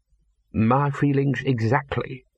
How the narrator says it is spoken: purred

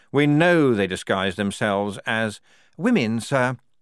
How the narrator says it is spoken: said Clogston smoothly

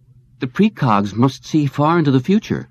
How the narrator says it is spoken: Whitwer exclaimed

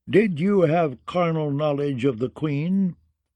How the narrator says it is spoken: said the High Septon in a firm, clear voice

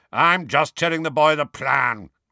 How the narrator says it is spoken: growled Moody

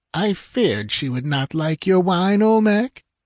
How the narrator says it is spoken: purred the princess

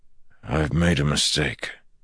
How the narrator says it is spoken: Perrin said with a sigh

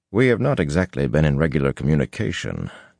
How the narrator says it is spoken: Tom said dryly

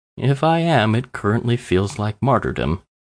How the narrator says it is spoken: the bum said wearily

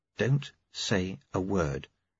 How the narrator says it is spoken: said quietly

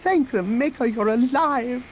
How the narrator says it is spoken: the droid exclaimed

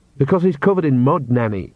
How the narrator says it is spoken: said Agnes sharply

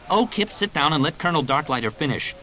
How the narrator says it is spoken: Jaina snapped

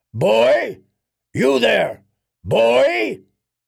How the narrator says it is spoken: a booming voice called after him

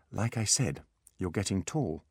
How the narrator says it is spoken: said Holly

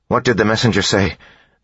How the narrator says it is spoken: Beads asked nervously

